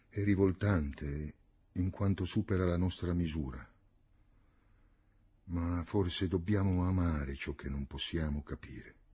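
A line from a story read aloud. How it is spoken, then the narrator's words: Murmuring. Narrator (Italian): mormorò Panlù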